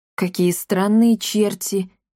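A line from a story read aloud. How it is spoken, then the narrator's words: Thoughtful murmur. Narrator (Russian): задумчиво пробормотал Капотун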